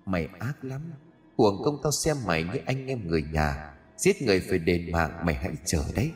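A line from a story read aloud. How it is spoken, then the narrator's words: Close menacing whisper. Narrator (Vietnamese): Ghé gương mặt đang chảy máu loang lổ xuống sát mặt của gã mà thì thầm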